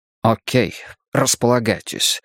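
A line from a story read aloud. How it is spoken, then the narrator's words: Grumbling. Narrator (Russian): проворчал он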